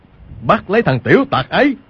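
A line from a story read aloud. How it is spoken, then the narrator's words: Loud shout. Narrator (Vietnamese): Y bèn quát lớn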